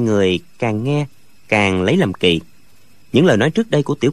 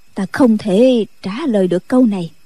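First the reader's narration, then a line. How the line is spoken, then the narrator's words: Sighing reply. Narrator (Vietnamese): Định Vật thở dài đáp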